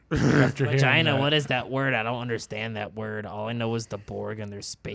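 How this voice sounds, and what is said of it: Poor Beavis and Butthead cartoon voice. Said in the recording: “terrible Beavis and Butthead impression”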